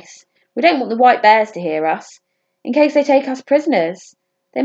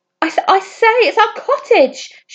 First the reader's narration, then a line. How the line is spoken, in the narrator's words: shrieked the baby bear in surprise and delight